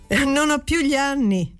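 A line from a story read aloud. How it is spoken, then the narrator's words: Laughing. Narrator (Italian): dissi ridendo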